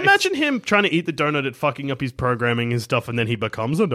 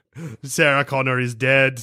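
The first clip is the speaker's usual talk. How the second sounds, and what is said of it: Arnold Schwarzenegger impression. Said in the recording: “I don't know why I'm doing an Arnie accent.”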